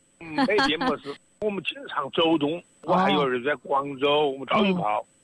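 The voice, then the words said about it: Wuhan-accented Chinese. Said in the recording (Chinese): “你们两个的口音呢，还是一口武汉话”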